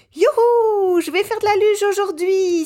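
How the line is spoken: Excited shout. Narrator (French): s'écrie Pablo

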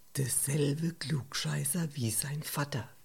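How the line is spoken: Murmuring. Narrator (German): Heiner murmelte

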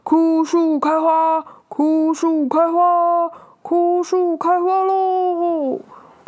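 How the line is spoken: Loud shout. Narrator (Chinese): 他……大喊说

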